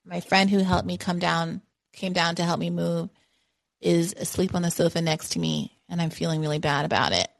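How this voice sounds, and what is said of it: Slightly scratchy voice. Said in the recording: “My voice is a little scratchy.”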